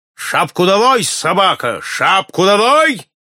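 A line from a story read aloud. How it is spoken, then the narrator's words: Menacing shout. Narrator (Russian): грозно крикнул на него барон Брока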